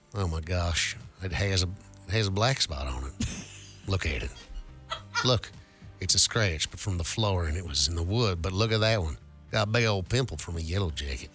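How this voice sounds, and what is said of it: Put-on Southern accent. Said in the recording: “me doing an accent that is a southern accent.”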